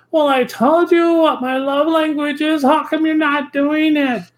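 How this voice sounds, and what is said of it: Whiny, shrill voice. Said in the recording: “little whiny voice ... that voice, it sounded quite like a banshee”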